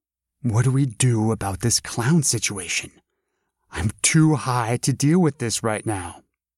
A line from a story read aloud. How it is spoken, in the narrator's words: My girlfriend started getting concerned, whispering to me